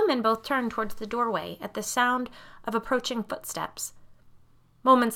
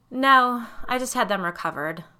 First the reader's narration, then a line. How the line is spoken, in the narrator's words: Karen replied in a bored voice